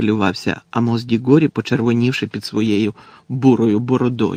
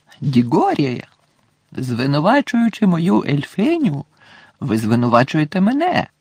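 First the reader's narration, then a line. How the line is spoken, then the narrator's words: Exclaiming. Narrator (Ukrainian): вигукнув містер Кравч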